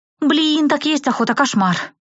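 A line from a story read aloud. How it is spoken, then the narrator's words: Sighing. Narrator (Russian): вздохнула Рэй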